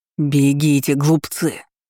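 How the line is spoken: Growl while running. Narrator (Russian): рычал он, ускоряя бег

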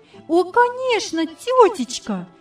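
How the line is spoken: Delighted exclamation. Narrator (Russian): воскликнула восхищенно Яна

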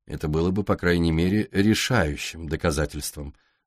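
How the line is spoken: Dry reply. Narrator (Russian): сухо ответил Дэвид

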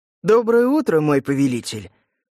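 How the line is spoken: Exaggeratedly cheerful and loud. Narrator (Russian): преувеличенно бодро и громко сказал Ленц

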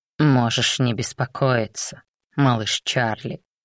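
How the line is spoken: Mocking purr. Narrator (Russian): промурлыкал знакомый насмешливый голос

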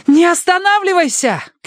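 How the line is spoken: Shout over loud chaos. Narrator (Russian): крикнула ему Минкс, потому что только крик мог быть услышан в этой симфонии катастрофы

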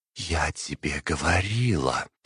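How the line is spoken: Hissing. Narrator (Russian): прошипела императрица

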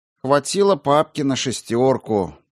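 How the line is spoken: Nostalgic sigh. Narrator (Russian): ностальгически вздохнул Грошев

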